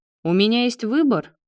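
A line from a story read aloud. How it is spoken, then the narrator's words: Wry snort. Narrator (Russian): хмыкнул Марат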